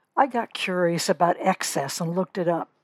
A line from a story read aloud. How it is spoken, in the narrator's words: Kate whispered